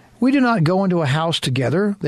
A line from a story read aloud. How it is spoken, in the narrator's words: they replied